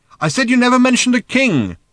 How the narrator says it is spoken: shouted Arthur again

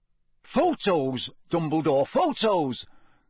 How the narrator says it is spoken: cried Bagman excitedly

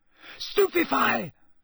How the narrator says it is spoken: Harry yelled

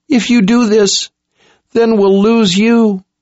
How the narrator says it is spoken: Jensen sobbed

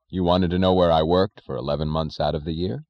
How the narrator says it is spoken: he said

